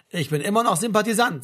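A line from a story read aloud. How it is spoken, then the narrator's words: Plain. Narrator (German): sagte Martin Klapp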